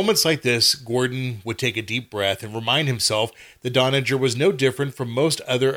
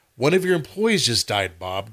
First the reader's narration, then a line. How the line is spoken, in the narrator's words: Gordon said